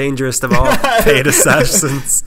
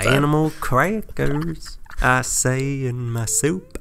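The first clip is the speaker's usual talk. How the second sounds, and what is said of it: Imitates another person's voice, singing. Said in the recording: “my impression of William Faulkner singing Animal Crackers in my soup”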